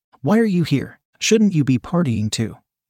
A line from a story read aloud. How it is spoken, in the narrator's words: I asked her